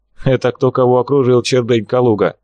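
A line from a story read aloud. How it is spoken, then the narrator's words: Mocking laugh. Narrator (Russian): Степа засмеялся как можно обиднее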